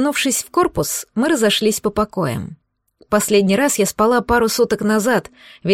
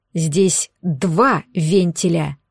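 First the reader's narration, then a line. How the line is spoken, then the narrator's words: Growled. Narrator (Russian): рыкнул Гирзл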